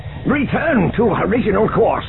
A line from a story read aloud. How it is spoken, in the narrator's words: Zinge shouted